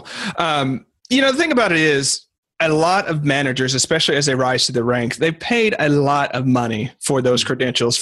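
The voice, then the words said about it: Southern American accent. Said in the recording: “you've got that southern accent thing going”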